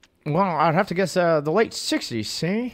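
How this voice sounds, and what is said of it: Old-timey 1920s film voice. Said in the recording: “please just answer this question in a 1920s voice”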